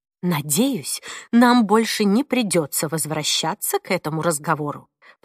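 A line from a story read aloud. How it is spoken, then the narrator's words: Calmer tone. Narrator (Russian): произнесла уже более спокойным тоном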